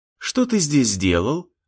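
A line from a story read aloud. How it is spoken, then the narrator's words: Gentle question. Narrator (Russian): ласково спросила у него Кира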